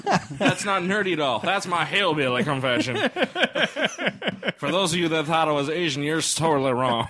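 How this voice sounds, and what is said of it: Southern gentleman accent. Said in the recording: “your accent is a southern gentleman”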